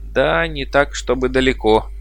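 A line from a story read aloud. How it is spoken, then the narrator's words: Laughing. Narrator (Russian): смеясь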